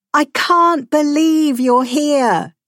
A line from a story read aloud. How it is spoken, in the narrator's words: Teresa shouted